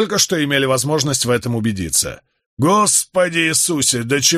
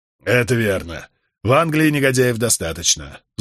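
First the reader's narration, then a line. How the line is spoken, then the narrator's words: Sighing. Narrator (Russian): вздохнул Вайтерингтон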